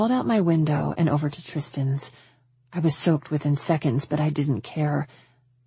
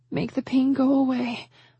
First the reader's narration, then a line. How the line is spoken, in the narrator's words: I pleaded